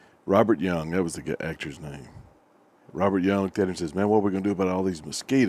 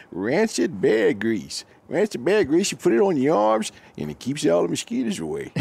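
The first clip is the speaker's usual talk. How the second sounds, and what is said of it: Good Walter Brennan impression. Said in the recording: “That's Walter Brennan. ... That was a pretty good impression”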